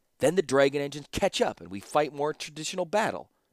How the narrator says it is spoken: snapped Ashnod

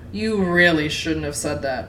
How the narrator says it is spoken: he chuckled

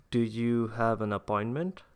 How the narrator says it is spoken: the secretary asked

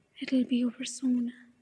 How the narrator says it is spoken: he whispered

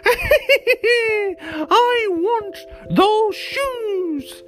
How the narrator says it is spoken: cried

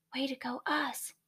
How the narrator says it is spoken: Rolly whispers

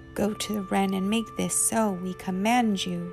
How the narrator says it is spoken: they growled

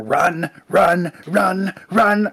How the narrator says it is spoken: starts just like shouting

